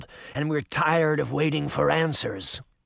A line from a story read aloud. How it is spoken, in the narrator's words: Canis growled